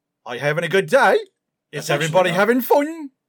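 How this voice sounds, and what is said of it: Put-on Australian accent, rising pitch. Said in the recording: “Australian accent... At the end of every sentence, you go up in pitch, and it's a question”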